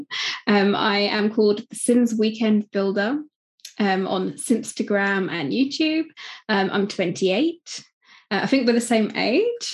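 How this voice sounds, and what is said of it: British accent. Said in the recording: “I'm from the UK, as you can probably tell by my accent.”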